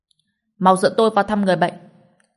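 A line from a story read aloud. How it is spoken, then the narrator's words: Frightened screaming. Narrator (Vietnamese): Nhiều người sợ quá còn hét lên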